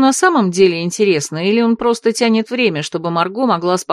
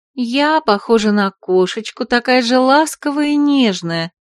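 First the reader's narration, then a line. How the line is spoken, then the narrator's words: Purring. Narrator (Russian): промурлыкала Романс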